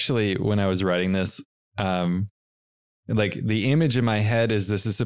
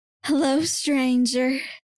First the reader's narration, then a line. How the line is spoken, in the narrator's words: she purred, or Lethlyn purred